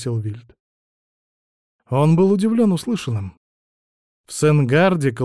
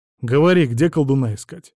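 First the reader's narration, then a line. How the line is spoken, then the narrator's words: Plain. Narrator (Russian): спросил Вильд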